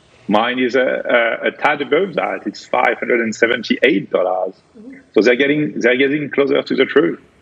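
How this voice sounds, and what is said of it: Speaks with a noticeable accent. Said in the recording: “I do like your accent”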